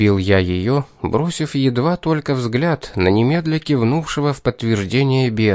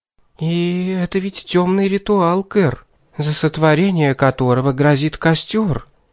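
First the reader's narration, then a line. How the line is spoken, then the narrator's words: Timid hesitant voice. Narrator (Russian): робко заикнулась Златовласка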